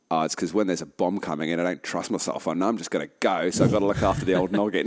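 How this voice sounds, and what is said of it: Put-on Australian accent. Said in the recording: “Nice Australian accent too.”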